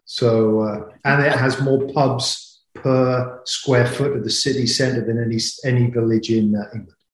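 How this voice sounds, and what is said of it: English West Country accent. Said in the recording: “that killer accent... Originally from England, from God's country, the West Country”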